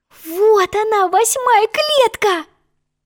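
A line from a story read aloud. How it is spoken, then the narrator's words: Exclamation. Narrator (Russian): воскликнула Алиса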